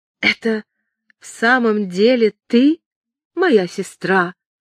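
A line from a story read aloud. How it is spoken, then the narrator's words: Uncertain. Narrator (Russian): неуверенно проговорила она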